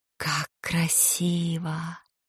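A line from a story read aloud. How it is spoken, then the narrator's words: Admiring whisper. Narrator (Russian): восхищенном шепоте голос Флоранс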